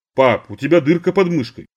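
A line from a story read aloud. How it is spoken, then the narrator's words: Plain. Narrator (Russian): сказала Дилька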